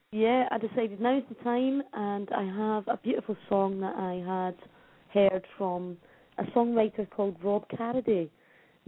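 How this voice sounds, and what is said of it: UK accent. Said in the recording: “It could be my accent... Can you guys understand me over there?... I love your accent... the UK and of course Scotland, Ireland, England, Wales. Scotland's got a strong accent”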